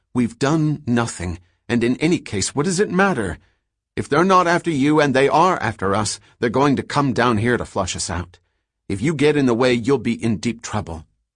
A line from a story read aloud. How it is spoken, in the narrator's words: Dors said impatiently